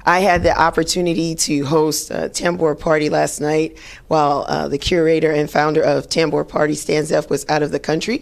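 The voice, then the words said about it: Raspy, hoarse voice. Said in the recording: “I'm a little raspy ... typically if I'm raspy on Sunday, it means I got my life on Saturday night ... the raspiness in my voice”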